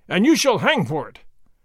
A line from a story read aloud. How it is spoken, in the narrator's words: his Excellency cried